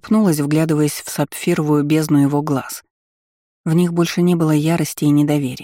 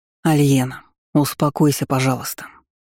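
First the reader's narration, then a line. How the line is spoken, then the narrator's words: Tired request. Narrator (Russian): устало попросил Вальгард, неожиданно перейдя на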